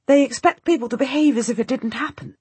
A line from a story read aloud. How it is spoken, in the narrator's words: I exclaim